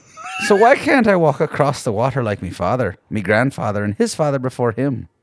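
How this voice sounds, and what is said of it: Put-on Irish accent. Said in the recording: “Your Irish accent is what makes that ... it makes it great ... I didn't do the up down like you do”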